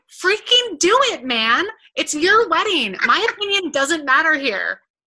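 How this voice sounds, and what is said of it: Very excited imitation of another person. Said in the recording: “I'm going to do it in your voice. ... That's not my voice. That was your voice. ... My voice is very excited.”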